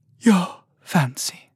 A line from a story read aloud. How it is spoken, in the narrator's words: the little fish said, her voice sleepy